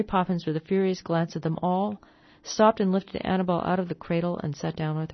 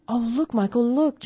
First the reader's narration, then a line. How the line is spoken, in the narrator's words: Jane said excitedly